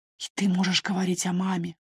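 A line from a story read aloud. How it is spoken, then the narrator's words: Whisper. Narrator (Russian): прошептал он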